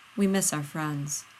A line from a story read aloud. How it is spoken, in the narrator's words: John says quietly